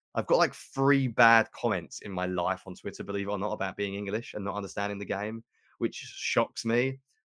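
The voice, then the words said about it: British English accent. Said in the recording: “I do not have a good American accent. I'm very clearly British.”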